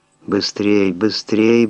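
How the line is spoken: Mutter. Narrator (Russian): бормотал Шелдон

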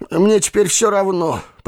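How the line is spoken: Grumbling. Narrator (Russian): проворчал он

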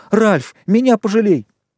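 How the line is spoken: Shrill squeal. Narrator (Russian): Хрюша взвизгнул

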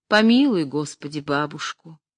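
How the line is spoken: Sad. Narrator (Russian): прибавляет она грустно

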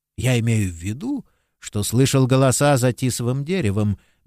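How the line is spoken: Gentle reply. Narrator (Russian): мягко ответил священник

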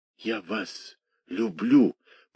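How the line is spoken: Whisper. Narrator (Russian): прошептал он

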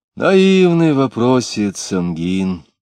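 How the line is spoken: Coaxing tone. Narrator (Russian): сказал он уговаривающим тоном

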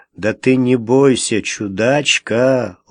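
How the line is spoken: Gentle, affectionate. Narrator (Russian): ласково сказал он

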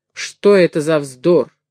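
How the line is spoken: Stern question. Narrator (Russian): строго спросила Сара

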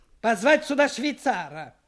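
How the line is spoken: Shout. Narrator (Russian): крикнул он

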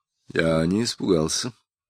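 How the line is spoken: Mutter. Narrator (Russian): пробормотал

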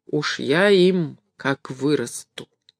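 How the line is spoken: Grumbling through teeth. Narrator (Russian): Борька ворчал сквозь зубы

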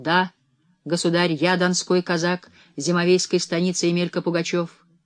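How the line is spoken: Loud. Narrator (Russian): Он столь же громко ответствовал

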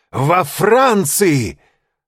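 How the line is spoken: Shouting. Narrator (Russian): закричал он

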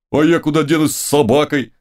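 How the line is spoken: Wailing. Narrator (Russian): вопил какой-то фукс

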